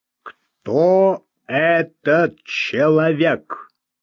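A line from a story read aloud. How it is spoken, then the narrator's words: Slow, firm question. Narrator (Russian): спросил он медленно, но твердо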